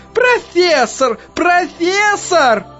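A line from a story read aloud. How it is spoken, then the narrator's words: Alarmed nurse shouting. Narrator (Russian): всполошенная медсестра кричала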